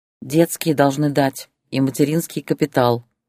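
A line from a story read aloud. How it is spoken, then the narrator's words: Plain. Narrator (Russian): ответила Ольга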